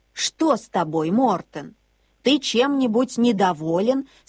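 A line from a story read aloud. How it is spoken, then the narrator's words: Plain. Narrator (Russian): спросила бабушка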